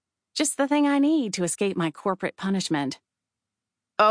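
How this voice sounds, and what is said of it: Usual voice. Nothing is said of it.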